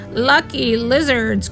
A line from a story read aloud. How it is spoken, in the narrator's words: croaked the old man